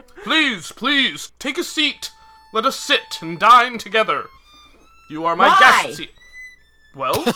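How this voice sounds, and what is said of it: Put-on character voice for the abbot. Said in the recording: “Sounds like you're trying to put on a voice now. ... Quite an echo in here.”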